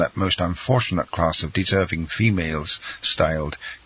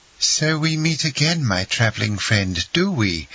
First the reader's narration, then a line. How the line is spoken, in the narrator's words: cried the Countess, with all the warmth and cordiality of an old acquaintance